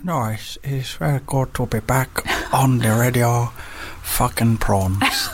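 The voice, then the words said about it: Impression of Nelson. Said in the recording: “That's Nelson. Nelson comes out every time.”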